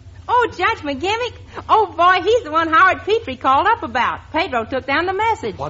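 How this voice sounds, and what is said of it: Usual voice. Nothing is said of it.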